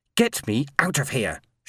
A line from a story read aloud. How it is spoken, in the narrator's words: she hissed